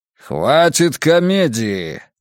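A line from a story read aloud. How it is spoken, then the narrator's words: Dragon's growl. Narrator (Russian): рыкнул дракон по-английски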